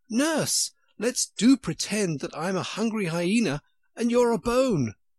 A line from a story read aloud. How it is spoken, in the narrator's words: shouting suddenly in her ear